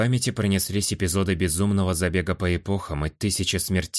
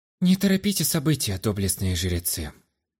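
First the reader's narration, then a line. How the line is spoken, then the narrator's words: Sighing. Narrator (Russian): вздохнул я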